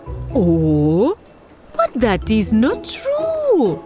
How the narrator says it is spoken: croaked the frog

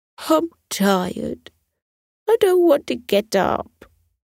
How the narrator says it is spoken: She whimpered

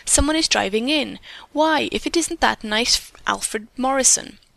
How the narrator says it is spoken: Bertha exclaimed

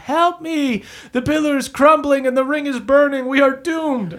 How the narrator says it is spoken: Lydia screams from the top

